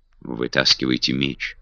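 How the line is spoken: Whisper. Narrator (Russian): шепнул Питер Кастелу

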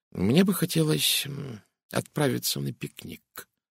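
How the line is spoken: Muttering. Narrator (Russian): пробормотал детектив

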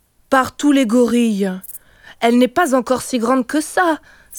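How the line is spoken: Alarmed exclamation. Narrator (French): s'écria Kijivu effaré

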